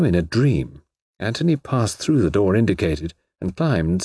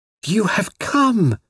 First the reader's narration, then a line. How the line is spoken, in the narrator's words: she cried